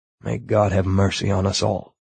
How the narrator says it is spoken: muttered

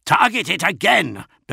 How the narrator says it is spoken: bellowed Namat Jira

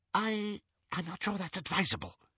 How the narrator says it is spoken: whispered Xenophilius

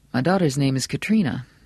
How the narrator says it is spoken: Bannerman said softly

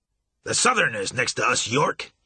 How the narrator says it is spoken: snapped

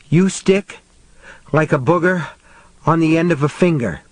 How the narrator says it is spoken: panted

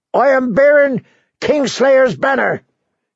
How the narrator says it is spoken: he shouted

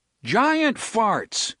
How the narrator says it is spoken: Cuthbert shouted

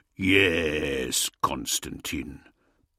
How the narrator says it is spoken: Russ purred

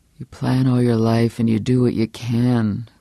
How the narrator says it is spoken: this spectral voice groaned

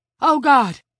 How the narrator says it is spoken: Don gasped

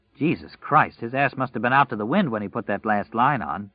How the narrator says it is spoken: Larry said

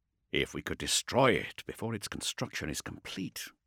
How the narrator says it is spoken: Thane muttered

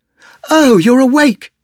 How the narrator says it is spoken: she cried, surprised to see Adric up and about

